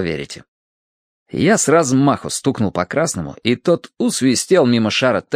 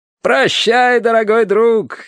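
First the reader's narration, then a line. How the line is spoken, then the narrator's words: Cheerful shout. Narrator (Russian): весело выкрикнул Терренс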